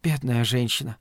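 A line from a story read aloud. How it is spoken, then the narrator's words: Sighing. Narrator (Russian): вздохнула Фрэнни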